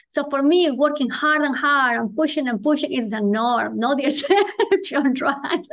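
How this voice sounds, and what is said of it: Foreign accent in English. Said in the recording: “I'm immigrant, I'm a woman, I have an accent.”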